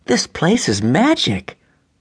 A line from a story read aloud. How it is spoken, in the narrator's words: exclaimed Rachelle